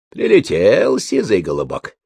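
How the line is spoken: Contented purr, old woman. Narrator (Russian): довольно промурлыкала старуха

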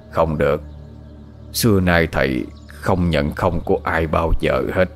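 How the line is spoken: Hoarse reply. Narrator (Vietnamese): Thầy Mo giọng khàn khàn trả lời

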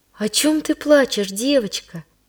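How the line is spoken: Gentle question. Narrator (Russian): ласково спросила

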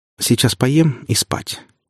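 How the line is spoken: Firmer voice, declaring. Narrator (Russian): уже более твердым голосом заявила

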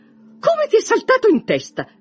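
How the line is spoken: Mother exclaiming. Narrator (Italian): esclamò sua madre

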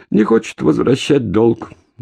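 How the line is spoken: Dejected sighing voice. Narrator (Russian): Болтун вздохнул и ответил удрученным голосом

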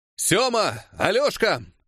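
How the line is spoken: Shouted. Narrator (Russian): крикнул

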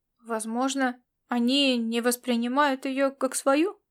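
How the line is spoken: Grumbled mutter. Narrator (Russian): буркнул Ласло

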